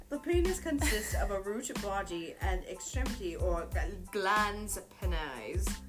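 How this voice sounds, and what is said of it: Put-on British accent. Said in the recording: “I'm going to read this in my best British accent.”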